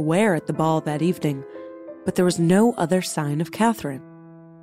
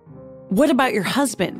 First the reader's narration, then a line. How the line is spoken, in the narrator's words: he sputtered